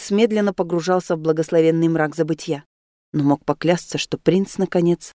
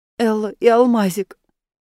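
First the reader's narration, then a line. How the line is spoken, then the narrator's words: Whimpering. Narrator (Russian): захныкал Рейнс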